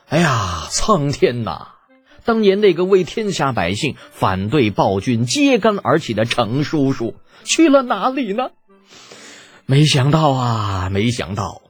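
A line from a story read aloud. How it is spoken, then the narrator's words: Long lamenting sigh. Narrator (Chinese): 李浩急中生智，仰天长叹道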